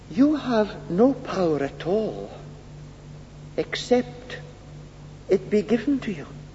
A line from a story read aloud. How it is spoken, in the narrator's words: Jesus very quietly said